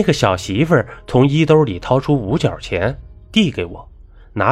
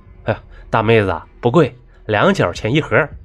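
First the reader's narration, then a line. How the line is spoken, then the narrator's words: Laughing. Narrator (Chinese): 我笑着说道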